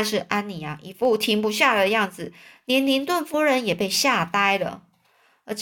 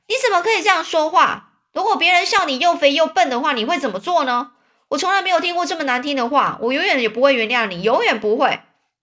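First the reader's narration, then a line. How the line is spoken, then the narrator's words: Furious trembling roar. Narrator (Chinese): 安妮 非常生气，浑身发抖，一边跺脚一边大吼着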